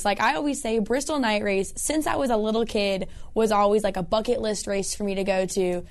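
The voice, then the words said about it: Worn-out, strained voice. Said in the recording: “as you can tell, my voice has definitely taken the toll from working the last 3 days on Colossus TV”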